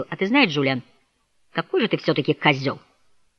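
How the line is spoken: Quiet but clear. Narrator (Russian): Хойт негромко, но отчетливо ответил

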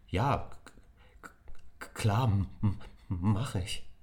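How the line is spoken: Stammering, suppressed excitement. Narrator (German): stammelte Nick und versuchte, seine Aufregung zu verbergen

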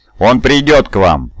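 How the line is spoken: Cold, hard, smiling. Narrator (Russian): улыбнулся холодно и жестко

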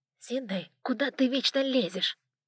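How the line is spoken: Nasal whine. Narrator (Russian): Гнусавил мистер Лесли своему партнеру

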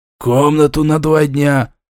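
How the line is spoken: Hoarse wheeze. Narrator (Russian): Прохрипев

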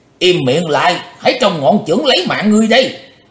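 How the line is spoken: Loud barking shout. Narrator (Vietnamese): Quái khách lớn tiếng quát

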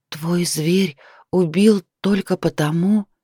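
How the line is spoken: Whisper. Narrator (Russian): прошептала

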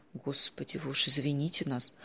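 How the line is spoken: Dazed mumble. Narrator (Russian): пробормотала, очнувшись от шока, Алевтина Петровна

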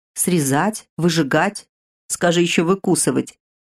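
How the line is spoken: Laughing creature. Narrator (Russian): хохотнуло лохматое нечто

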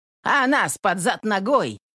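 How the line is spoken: Shout. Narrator (Russian): крикнул Егор Корыло

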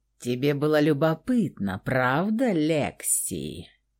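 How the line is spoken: Drawling the name. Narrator (Russian): Протянул ее имя Михаил

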